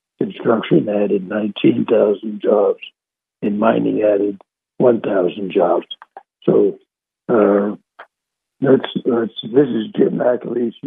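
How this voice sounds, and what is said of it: Hoarse, strained voice. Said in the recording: “Let me take a break here to repair my voice here. I'm going hoarse here.”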